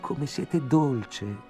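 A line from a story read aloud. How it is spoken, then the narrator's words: Exclaimed. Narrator (Italian): esclamai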